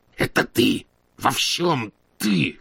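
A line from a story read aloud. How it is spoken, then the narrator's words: Hoarse rasping. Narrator (Russian): хрипел он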